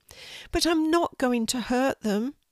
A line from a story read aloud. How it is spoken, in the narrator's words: said Brady sadly